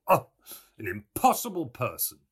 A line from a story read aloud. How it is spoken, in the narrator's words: he exclaimed